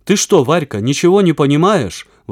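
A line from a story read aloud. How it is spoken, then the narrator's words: Exclaiming. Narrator (Russian): воскликнул Веня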